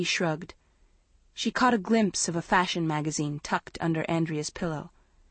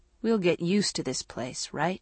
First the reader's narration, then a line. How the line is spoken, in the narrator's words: she asked gloomily